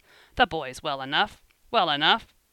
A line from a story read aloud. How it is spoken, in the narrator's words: King sharply